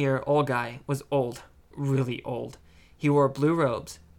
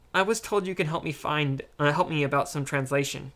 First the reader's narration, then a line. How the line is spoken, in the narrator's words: Zorian said